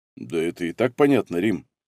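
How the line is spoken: Calm. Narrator (Russian): спокойно прокомментировал Василий

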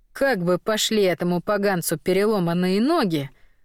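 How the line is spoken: Sigh. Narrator (Russian): вздохнул рядом Потап

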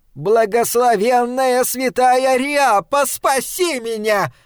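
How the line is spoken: Piercing scream. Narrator (Russian): пронзительно закричала Рэйчел

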